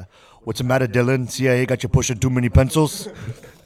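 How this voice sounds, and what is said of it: Arnold Schwarzenegger impression. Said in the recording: “worst Arnold impression.”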